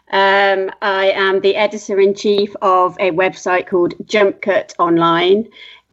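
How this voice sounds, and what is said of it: British accent. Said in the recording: “you can probably pick up from my accent that I am British”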